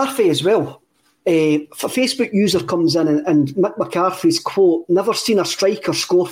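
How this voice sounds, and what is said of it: Usual voice. Nothing is said of it.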